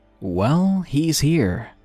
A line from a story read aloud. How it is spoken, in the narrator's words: he said